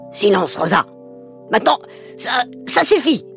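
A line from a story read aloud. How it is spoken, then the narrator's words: Stammering grandfather. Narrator (French): bégaya le grand-père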